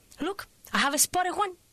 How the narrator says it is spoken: she was pointing excitedly

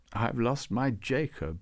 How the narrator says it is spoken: she said

